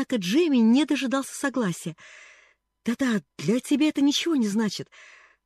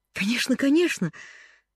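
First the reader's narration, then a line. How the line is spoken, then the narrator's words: Exclaimed. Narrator (Russian): воскликнул Джимми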